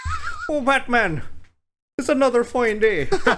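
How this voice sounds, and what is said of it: Put-on Irish accent. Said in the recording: “Is that an Irish accent ... It is.”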